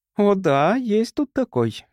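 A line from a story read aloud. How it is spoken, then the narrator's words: Ringing laugh. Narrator (Russian): девушка звонко засмеялась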